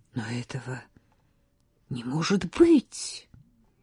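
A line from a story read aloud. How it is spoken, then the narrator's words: Quiet woman's voice. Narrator (Russian): она тихо сказала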